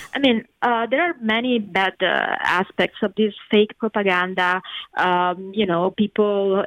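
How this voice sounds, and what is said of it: Italian accent in English. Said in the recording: “I'm Italian. I grew up in the south of Italy ... People question my accent”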